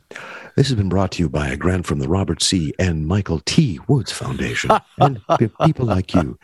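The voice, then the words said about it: Sleepy, warm NPR announcer voice. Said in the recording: “NPR voice ... that sort of somnambulant, warm bath of traditional liberalism tone”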